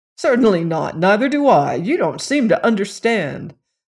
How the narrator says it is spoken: Bob answered smoothly

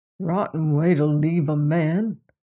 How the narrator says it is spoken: Bob mumbled

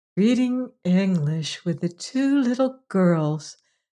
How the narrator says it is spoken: said Margaret dreamily

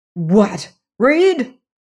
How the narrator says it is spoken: cried

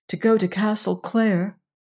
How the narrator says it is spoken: faltered Agatha

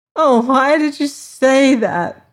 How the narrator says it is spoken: wailed the girl

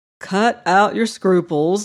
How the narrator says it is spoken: laughed the doctor

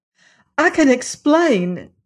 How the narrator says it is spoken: exclaimed Jane Ellen

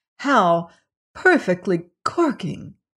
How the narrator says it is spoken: exclaimed

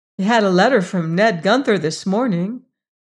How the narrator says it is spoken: said Rebecca cheerfully

